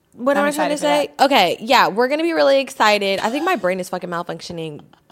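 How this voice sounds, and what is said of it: Sick-sounding voice. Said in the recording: “I'm sick as you guys can hear my voice. My voice has got a little clearer.”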